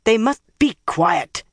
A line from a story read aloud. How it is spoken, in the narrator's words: Nynaeve snapped